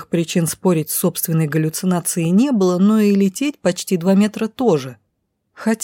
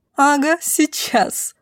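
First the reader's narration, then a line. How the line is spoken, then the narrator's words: Loud laughter. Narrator (Russian): захохотала в голос женщина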